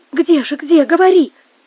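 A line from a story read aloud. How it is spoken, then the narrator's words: Miserable exclamation. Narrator (Russian): воскликнула несчастная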